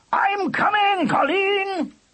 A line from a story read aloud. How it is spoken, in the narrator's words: he roared